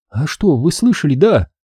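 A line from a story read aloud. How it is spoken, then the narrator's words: Trembling, frightened girl. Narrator (Russian): Затряслась девчонка, испуганно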